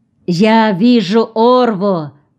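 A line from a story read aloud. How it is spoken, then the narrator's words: Shout. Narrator (Russian): крикнул кто-то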